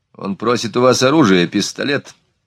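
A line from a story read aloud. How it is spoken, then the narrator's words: Dry translation. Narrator (Russian): сухо перевел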